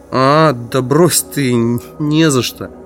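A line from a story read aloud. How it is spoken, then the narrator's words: Frightened mumbling. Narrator (Russian): промямлил он, испуганно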